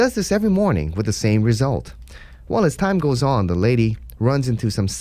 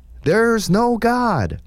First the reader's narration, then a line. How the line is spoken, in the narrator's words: The atheist yells back